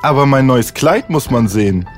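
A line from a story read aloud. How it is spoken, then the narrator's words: Plain. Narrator (German): sagte der Vau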